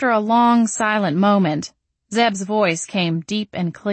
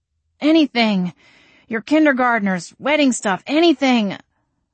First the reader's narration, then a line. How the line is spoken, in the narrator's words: I exclaimed, wincing at the empty churning in my stomach